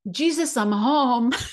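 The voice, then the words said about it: Imitated Italian accent. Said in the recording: “in her Italian accent”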